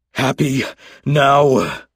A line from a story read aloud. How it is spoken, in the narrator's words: Durand panted heavily